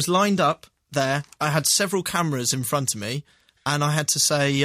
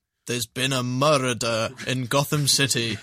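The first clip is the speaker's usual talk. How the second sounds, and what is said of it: Failed American accent sounding Scottish. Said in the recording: “your American accent... Which is Scottish.”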